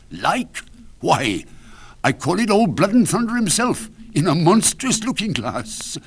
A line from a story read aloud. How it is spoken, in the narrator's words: cried a third